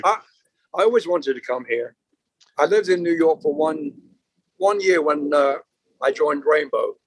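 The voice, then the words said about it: British accent. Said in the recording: “my kids have a different accent to mine ... my accent's funny ... I say with a British accent”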